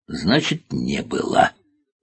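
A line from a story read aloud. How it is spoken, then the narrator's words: Angry growl. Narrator (Russian): зарычал генерал Хлом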